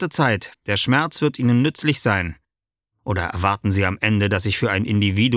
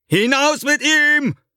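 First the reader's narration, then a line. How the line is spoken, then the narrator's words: Calling out. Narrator (German): ruft er zu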